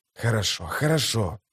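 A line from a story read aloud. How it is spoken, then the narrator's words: Hissing. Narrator (Russian): прошипел историк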